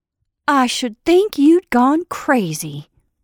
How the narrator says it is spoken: said Sarah scornfully, and yet her voice softened

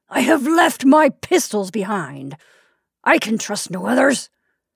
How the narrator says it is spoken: cried

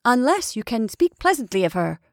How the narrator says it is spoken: I said sharply

